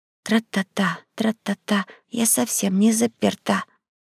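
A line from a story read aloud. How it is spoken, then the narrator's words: Soft singing. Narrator (Russian): кто-то тихонько пропел над ухом мальчишки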